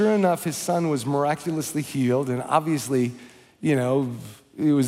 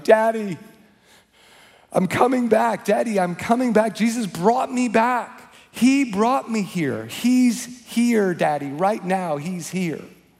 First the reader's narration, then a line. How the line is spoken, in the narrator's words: after a big gasp of air, he began shouting